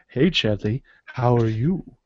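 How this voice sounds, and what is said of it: Fake fancy-talk accent. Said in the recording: “fake accent is just fancy talk. It's where you just go”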